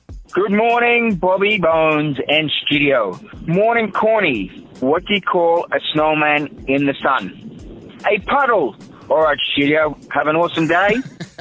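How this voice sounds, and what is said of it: Australian accent. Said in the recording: “It's funnier with an accent.”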